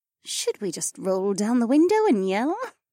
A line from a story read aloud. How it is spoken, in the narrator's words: Becca muttered with a smirk